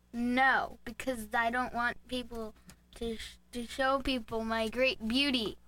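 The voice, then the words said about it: Imitates another person's voice. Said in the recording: “Was that your Trump impression? ... You might need to work on it.”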